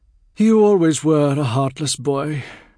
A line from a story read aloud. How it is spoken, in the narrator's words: sighed